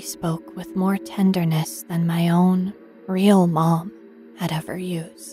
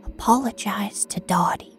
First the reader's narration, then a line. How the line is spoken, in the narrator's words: whispered